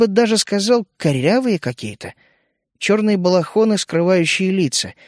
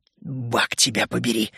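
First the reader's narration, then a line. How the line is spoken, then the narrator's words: Whisper. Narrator (Russian): прошептал я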